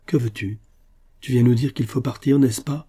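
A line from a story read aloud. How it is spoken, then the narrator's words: Exclaimed. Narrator (French): s'écria Raoul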